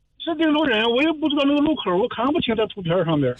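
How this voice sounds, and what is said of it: Dingzhou regional Chinese accent. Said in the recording (Chinese): “听你口音肯定是定州的”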